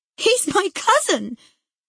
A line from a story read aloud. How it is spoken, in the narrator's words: cried Cathy with a scornful laugh